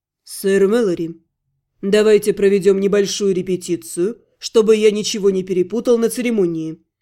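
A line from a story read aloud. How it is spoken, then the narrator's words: Dry. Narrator (Russian): сухо сказал Ратмир Второй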